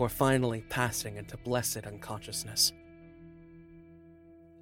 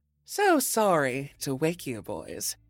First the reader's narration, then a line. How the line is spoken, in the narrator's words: purred, her voice velvet over steel